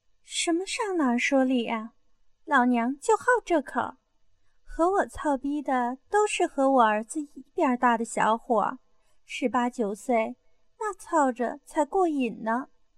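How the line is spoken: Laughing. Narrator (Chinese): 邓丽云笑道

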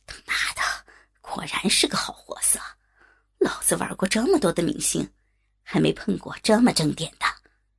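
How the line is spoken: Muttering to himself. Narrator (Chinese): 王董看得眼睛发直，口中喃喃自语的说

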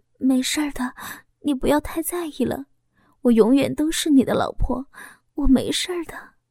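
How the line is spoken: Frightened, quiet. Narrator (Chinese): 我惊恐的擦拭老公的泪水，小声的说

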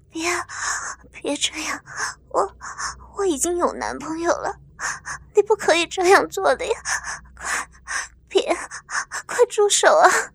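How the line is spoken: Breathless, trembling woman pleading. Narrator (Chinese): 温紫薇的娇躯不停地轻颤着，呼吸开始变得断断续续，口中娇喘连连地说道

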